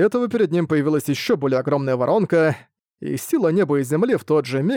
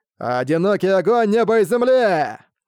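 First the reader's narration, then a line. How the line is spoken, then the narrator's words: Shout. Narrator (Russian): Сытунань крикнул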